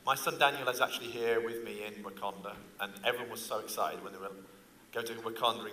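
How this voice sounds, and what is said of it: English accent. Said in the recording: “I'm not from around here by my accent. ... Oh no, I'm actually from England, obviously.”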